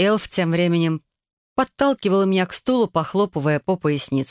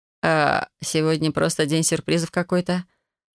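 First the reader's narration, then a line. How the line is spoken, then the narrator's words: Confused mumble. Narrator (Russian): Пробормотала я нечто непонятное, потому что ничего путного в голову не приходило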